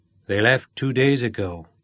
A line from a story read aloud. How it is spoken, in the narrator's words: said M